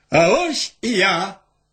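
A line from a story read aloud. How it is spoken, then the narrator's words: Loud shout. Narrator (Belarusian): моцна крыкнуў гаспадар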